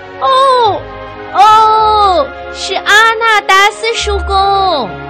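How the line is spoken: Loud shout. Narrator (Chinese): 他大叫

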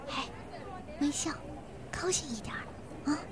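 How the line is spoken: Soft urging. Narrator (Chinese): 卢小姐小声地叮咛

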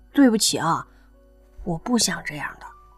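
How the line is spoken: Quiet apology. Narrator (Chinese): 不管对方听不听得到……他还是小声的说了句

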